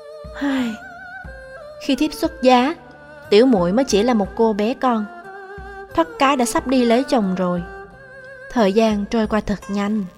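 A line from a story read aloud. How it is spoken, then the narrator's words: Feigned sigh. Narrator (Vietnamese): Nhưng vì có mặt Lục Ly nên tôi đành phải giả bộ thở dài, nói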